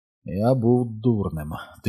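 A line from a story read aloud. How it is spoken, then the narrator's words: Quiet. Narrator (Ukrainian): тихо сказав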